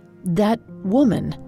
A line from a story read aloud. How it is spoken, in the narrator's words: he said in a shaky voice